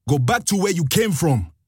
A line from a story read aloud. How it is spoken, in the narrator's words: she shouted